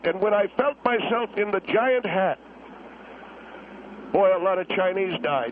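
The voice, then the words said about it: Emotional, choked-up voice. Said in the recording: “I know I'm getting emotional.”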